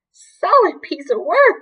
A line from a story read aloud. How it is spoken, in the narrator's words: cried